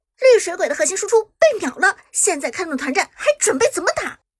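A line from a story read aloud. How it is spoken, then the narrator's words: Loud commentator. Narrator (Chinese): 解说小冷更是大声说道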